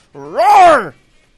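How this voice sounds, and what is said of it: Weak dinosaur roar impression. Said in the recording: “your dinosaur impression ... It's a little rock ... more like an alligator ... I don't do that well”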